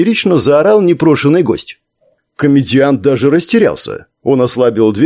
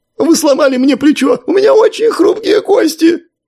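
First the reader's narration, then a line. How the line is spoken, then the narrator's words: Wailing, sobbing. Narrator (Russian): запричитал и буквально зарыдал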